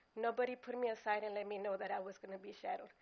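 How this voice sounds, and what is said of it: Upset, strained voice. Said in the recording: “my voice is, I'm upset”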